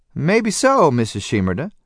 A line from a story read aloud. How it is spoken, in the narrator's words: Grandmother said dryly